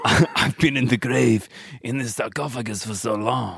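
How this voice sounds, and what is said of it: Damaged character voice. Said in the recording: “My voice is damaged.”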